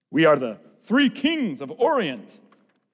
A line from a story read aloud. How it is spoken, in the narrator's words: boomed Eduardo